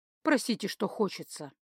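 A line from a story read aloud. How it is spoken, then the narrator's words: Dry, cold, detached. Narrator (Russian): сказал он, сухо, холодно, отстраненно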